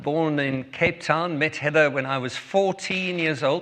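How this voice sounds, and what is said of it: South African accent. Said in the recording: “If you have already been listening to my accent, you'll know that we are from South Africa.”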